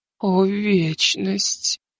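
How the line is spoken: Trembling voice. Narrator (Russian): дрожащим голосом произнесла Азимандия

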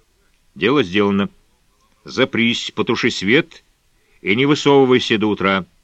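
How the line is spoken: Harsh, unpleasant tone. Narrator (Russian): резким неприятным тоном сказал он

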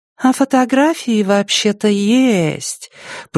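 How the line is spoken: Drawling. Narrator (Russian): протянула Венера

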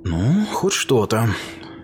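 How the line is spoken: Sighing. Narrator (Russian): вздохнула Легия

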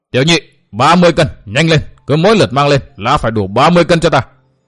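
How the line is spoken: Old man shouting loudly. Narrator (Vietnamese): Lão hét to

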